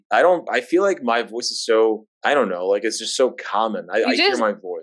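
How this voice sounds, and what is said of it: New York Queens accent. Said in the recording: “You just sound like you're from Queens. ... It's a New York accent.”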